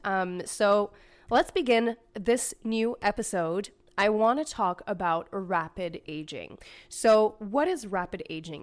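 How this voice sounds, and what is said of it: Raspy voice. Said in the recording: “my voice is a little raspy ... I did have a little bit of a cold during the holiday season, so my voice is still a little raspy”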